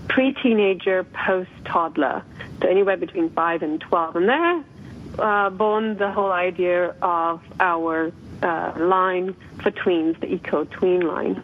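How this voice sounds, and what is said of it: Soothing slight foreign accent. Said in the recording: “I love your voice. You just have that soothing little accent.”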